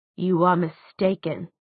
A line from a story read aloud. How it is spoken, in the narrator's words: she said coldly